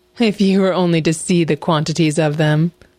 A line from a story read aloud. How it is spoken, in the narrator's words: laughed the fox